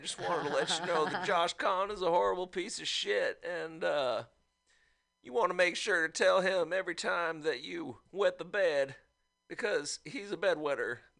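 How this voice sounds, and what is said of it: Put-on Arkansas accent. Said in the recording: “This is an Arkansas accent here”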